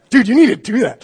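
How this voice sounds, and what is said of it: Imitates another person's voice. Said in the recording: “that was a good impersonation”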